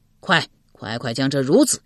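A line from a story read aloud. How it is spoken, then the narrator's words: Angry. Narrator (Chinese): 怒目说道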